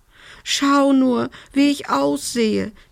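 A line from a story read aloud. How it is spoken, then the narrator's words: Wailing lament. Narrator (German): jammerte sie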